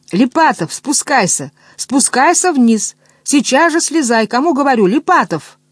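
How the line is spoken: Straining shout. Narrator (Russian): учительница, надрываясь, кричала

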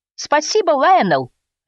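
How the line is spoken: Barked. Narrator (Russian): рявкнул Фрэнк

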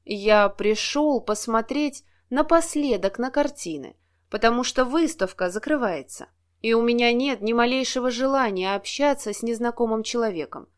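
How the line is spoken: Perfectly calm reply. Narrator (Russian): совершенно спокойно ответил он

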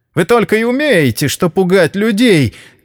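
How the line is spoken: Shouting. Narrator (Russian): крикнула она

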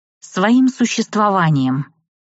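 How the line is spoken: Grumble. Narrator (Russian): буркнула

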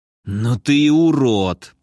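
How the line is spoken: Hissing. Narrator (Russian): прошипел он

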